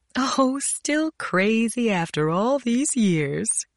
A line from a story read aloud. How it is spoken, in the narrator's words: she laughed